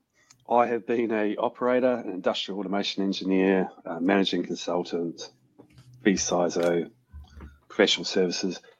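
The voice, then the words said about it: New Zealand accent. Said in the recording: “I'm from New Zealand. Hence the weird accent”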